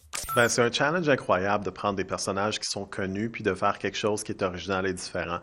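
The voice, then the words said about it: Slight Québécois French accent. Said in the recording (French): “C'est moi ou il est québécois? ... Complètement. ... québécois. ... A un petit accent, non? ... Ou en tout cas canadien.”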